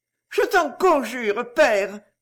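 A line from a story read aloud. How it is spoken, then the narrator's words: Pleading. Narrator (French): supplia-t-elle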